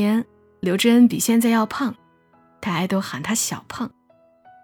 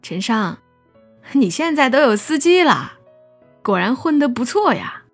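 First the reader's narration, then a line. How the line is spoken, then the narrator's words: Smiling. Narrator (Chinese): 于小婷对他笑道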